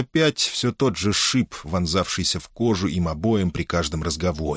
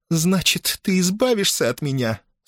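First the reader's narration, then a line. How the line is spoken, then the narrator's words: Tearful. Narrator (Russian): Сквозь слезы проговорила она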